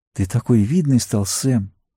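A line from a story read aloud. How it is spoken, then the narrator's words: Changed voice. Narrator (Russian): Совсем другим голосом сказала она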